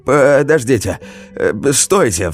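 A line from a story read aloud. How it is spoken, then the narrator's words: Cried out. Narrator (Russian): вскрикнул Вадим Игоревич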